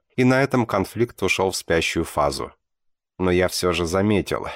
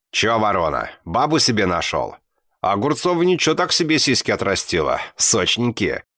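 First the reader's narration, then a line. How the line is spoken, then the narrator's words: Mocking smirk. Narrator (Russian): хмыкнул он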